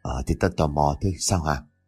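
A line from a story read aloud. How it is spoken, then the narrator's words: Trembling voice. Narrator (Vietnamese): miệng có vẻ run rẩy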